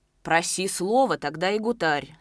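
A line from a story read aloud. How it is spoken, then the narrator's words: Stern admonishment. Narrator (Russian): строго внушал ему Нагульнов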